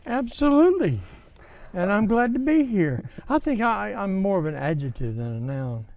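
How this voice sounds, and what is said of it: Alabama accent. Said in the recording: “I detect an accent... Mobile, Alabama”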